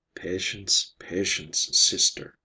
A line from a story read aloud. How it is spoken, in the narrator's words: muttered Ivar